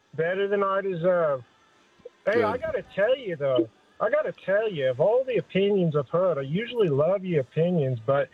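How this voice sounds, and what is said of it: Australian accent. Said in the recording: “With the wonderful Australian accent. I love it.”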